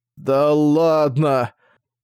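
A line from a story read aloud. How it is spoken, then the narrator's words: Strangled voice. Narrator (Russian): сказал он сдавленным голосом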